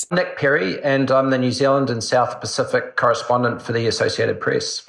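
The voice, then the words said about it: New Zealand accent. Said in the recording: “As you can tell from his accent, he's a Kiwi.”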